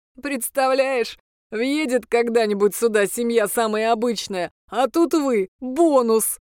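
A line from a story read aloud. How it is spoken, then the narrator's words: Laughing. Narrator (Russian): засмеялся бес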